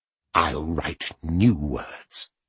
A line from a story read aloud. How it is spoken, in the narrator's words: he hissed in his ear